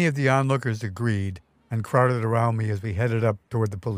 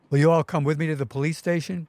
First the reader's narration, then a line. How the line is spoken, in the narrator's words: called out to the crowd